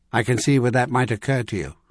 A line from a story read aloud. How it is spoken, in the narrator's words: Merlin replied calmly